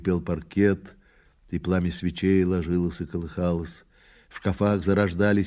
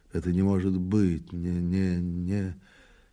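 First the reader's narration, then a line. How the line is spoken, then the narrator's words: Anxious muttering to himself. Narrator (Russian): полный, по-видимому, важных и тревожных дум, он говорил сам с собой, бормоча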